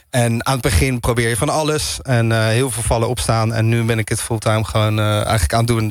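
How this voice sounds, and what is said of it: Hague Dutch accent, slightly American. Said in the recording (Dutch): “ik hoor af en toe een beetje een American accent tussendoor ... Het is en Haags en een beetje American.”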